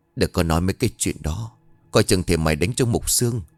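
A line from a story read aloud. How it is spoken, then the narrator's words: Soft tender murmur. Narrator (Vietnamese): Kỳ bà thì xót con lắm, thủ thỉ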